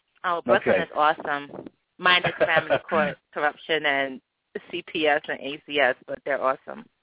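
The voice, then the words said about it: New York City accent. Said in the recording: “I didn't expect the New York City accent”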